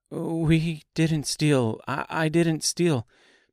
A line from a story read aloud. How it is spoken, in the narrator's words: Dorothy stammered